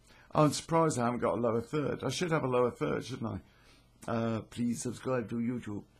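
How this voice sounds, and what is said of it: Slightly croaky voice. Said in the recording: “my voice is uh, a little bit croaky, I'm afraid ... I've been relatively ill since Christmas and uh, my voice isn't great”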